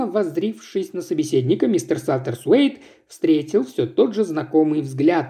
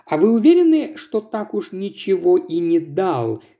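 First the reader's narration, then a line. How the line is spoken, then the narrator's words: Plain. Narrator (Russian): спросил мистер Кин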